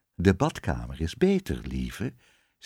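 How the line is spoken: Plain. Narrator (Dutch): zei de koningin

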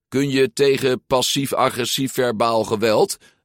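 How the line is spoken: Calling out. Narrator (Dutch): riep Julia

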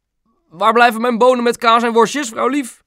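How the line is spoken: Father calling from another room. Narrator (Dutch): riep pap vanuit de woonkamer

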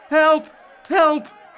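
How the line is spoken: Calling out. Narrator (Dutch): riep

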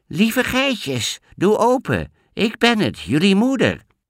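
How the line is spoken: High-pitched little voice. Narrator (Dutch): met een hoog stemmetje zei hij

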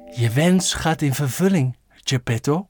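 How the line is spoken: Soft fairy voice. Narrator (Dutch): zei de blauwe vee zacht

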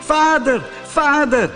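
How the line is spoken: Calling out. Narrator (Dutch): riep

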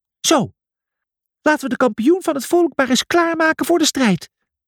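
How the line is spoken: Squeaky voice. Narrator (Dutch): piepte hij

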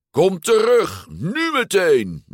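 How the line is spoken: Roar. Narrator (Dutch): brulde Lorenzo

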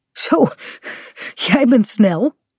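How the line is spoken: Panting. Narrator (Dutch): zegt hij hijgend

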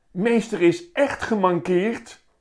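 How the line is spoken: Shriek. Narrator (Dutch): gilt Steffi

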